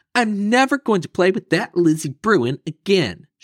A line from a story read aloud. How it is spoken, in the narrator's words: shouted Sister